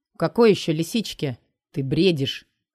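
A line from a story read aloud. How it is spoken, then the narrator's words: Even, level tone. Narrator (Russian): Ровным тоном отвечаю я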